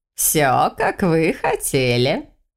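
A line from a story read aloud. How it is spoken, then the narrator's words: Old woman laughing. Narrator (Russian): рассмеялась бабушка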